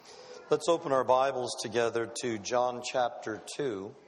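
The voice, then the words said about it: Noticeably affected, strained speaking voice. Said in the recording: “You'll have to excuse my voice. I have no cold, no respiratory problem. ... I apparently am allergic to air. ... I have to take a medicine for my bronchial tubes ... it coats them, and then I go through this time where I sound like I”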